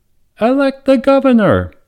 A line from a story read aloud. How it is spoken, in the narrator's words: a small voice cried out